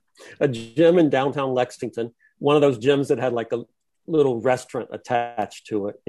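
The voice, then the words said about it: Genuine Kentucky regional accent. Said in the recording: “you got that great accent. That's why we love you. It's a real accent.”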